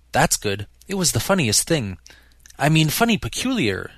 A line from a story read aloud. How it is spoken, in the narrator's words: she clarified hastily